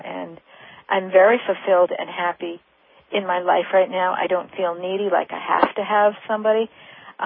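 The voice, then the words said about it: Excited, upbeat voice. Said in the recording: “I feel excited, as ... You can hear in my voice.”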